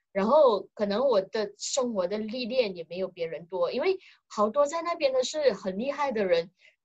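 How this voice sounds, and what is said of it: Malaysian-accented Mandarin. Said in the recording (Chinese): “我身为一个马来西亚人，其实我说话的口音啊，各方面都不是特别的好，相对于中国人来说”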